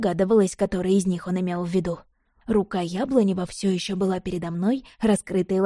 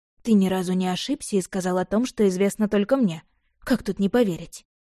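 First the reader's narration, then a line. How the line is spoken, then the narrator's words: Dejected question. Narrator (Russian): уныло спросила я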